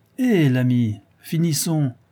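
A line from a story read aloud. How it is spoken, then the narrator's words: Sour, sneering, insulting sailor. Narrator (French): reprit aigrement le marin, en prenant son de voix dans le ricanement avec quelque chose d'insultant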